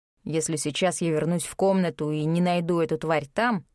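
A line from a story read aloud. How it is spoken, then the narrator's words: Grim concluding voice. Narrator (Russian): мрачно заключил некромант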